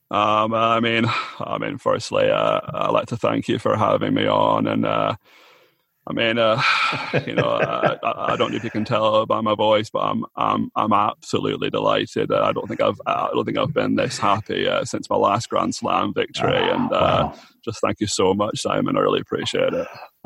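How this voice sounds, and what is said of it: Impression of Andy. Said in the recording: “it's interesting to hear your Andy”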